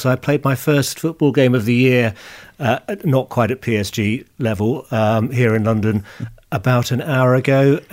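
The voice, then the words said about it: Slightly hoarse voice. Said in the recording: “slightly hoarse. ... I always shout too much, and I always end up being hoarse for about a day afterwards.”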